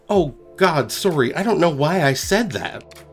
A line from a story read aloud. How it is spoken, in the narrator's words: I accidentally blurted out